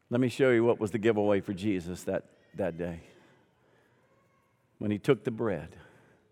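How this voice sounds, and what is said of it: Southern American accent. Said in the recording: “when they hear the southern accent”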